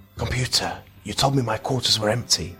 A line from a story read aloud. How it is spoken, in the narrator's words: whispered